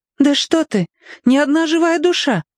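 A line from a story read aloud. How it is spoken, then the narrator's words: Exclaimed. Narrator (Russian): воскликнула Варя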